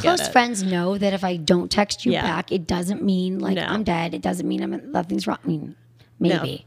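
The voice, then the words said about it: Hoarse, worn-out voice. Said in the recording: “That's why I lost my voice.”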